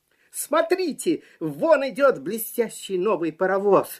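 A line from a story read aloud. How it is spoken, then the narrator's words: Funny clown shouting. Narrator (Russian): закричал смешной клоун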